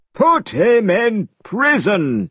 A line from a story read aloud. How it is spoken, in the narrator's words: he cried